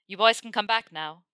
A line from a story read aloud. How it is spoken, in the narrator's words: he shouted back